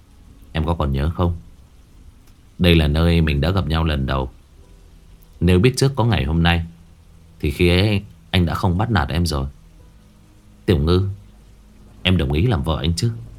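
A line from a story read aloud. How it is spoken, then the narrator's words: Gentle tender. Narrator (Vietnamese): Anh mở ra dịu dàng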